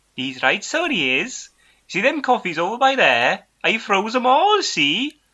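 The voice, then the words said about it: Put-on Welsh accent. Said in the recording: “It's difficult to convert from such a good Brummy accent to a Welsh accent”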